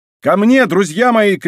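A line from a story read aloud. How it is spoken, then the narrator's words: Shouting. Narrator (Russian): кричал Д'Артаньян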